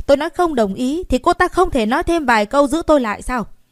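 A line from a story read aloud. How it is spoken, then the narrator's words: Indignant raised voice. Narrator (Vietnamese): Út Chỉ Kim giống như bị dẫm lên chân vậy, cao giọng nói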